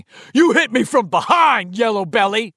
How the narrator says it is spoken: Moose screamed

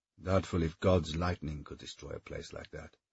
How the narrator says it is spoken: he muttered

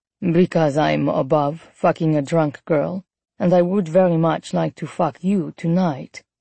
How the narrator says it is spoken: he said calmly

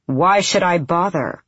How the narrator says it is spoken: the wingleader said

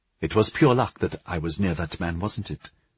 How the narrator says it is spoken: lowering her voice

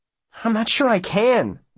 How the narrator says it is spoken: Will says desperately

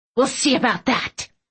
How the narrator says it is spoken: Aunt Tilly hissed

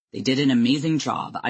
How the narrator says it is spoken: I would reply dryly

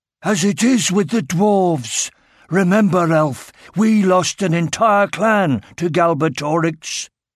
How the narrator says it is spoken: grunted in the back

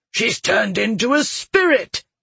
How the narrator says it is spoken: he cried

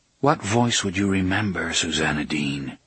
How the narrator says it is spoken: Roland asked in a low, musing voice

